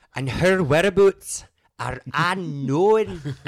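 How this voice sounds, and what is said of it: Put-on Scottish accent. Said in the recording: “was spot on Scottish accent.”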